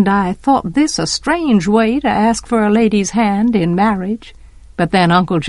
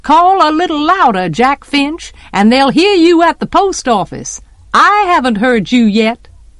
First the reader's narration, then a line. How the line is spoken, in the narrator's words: Miss Morty would yell back